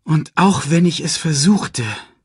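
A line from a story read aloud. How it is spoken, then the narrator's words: Loud sigh. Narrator (German): seufzte er laut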